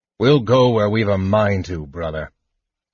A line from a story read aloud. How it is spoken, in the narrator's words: Caraman growled